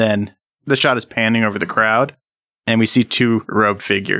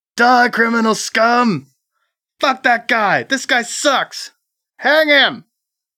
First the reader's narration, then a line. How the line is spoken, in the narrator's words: The people in the crowd are yelling and screaming